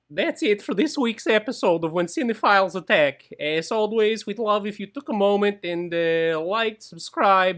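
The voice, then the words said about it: Imitates a cartoon character's voice. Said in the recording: “do your Bartok impression.”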